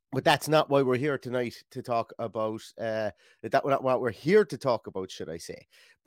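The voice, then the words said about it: West Limerick Irish accent. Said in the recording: “this West Limerick accent that I have here”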